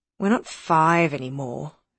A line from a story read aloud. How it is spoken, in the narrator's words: said Tom wearily